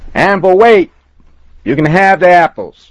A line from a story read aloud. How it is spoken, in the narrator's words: I shouted louder